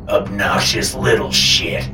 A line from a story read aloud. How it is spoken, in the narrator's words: Papa snarled